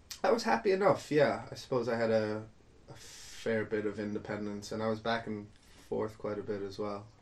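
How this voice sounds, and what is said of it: Mixed Irish accent, slightly American. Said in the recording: “I had my American accent swiftly beaten out of me. It still comes and goes ... I kind of picked up a bit more of an American accent again ... it's a bit Waterford, a bit Cork, a bit doesn't know what it is.”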